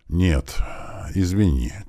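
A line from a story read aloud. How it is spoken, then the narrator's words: Heavy sigh, father. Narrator (Russian): тяжело вздохнул отец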